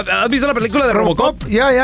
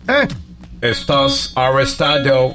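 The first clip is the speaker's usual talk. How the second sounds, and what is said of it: Put-on American-accented Spanish. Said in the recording (Spanish): “Oh, tiene acento. ... Robocop es gringo.”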